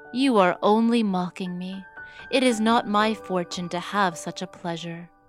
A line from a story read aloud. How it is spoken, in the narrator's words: said Cinderella sadly